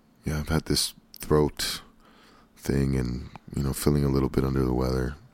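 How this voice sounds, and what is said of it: Slightly raspy voice. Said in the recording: “I've been sick ... I don't know if you can hear it in my voice. Because it's a little raspy ... I can sound like a raspy R&B singer”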